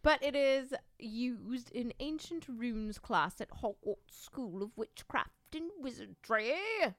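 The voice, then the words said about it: Speaking in a put-on accent. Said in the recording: “I don't know why I'm talking with an accent.”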